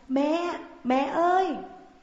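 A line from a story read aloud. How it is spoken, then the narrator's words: Little girls shouting from afar. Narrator (Vietnamese): Hai đứa con gái nhỏ từ xa đã hét lên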